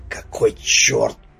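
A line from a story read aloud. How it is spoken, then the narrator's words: Hiss. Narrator (Russian): прошипел Велесов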